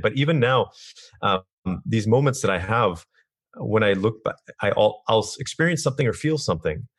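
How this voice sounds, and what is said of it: Strained, failing voice. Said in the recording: “my voice is going off today”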